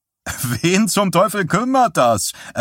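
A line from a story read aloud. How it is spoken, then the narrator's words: Young man laughing reply. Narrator (German): erwiderte der junge Bursche lachend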